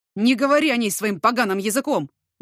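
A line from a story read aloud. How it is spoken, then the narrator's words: Shouting. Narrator (Russian): закричал я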